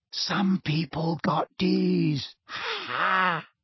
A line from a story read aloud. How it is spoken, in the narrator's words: Malfoy sniggered and said in a carrying whisper